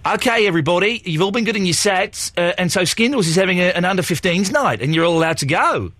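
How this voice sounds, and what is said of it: Put-on Australian accent. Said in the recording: “You're an Australian accent for everything.”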